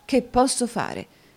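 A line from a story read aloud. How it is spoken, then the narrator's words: Irritated, embarrassed exclamation. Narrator (Italian): esclamò Newman con un'aria di grande irritazione e imbarazzo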